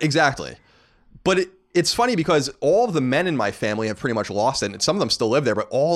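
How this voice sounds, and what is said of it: Usual voice. Nothing is said of it.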